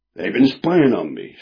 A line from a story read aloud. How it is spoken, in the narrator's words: snapped William Button